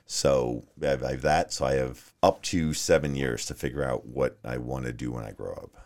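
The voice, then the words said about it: Slight New York accent. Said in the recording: “I hear a little bit of an accent, though. ... I'm originally from New York. ... I grew up on Long Island.”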